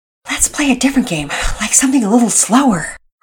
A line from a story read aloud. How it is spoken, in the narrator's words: Pearson said, panting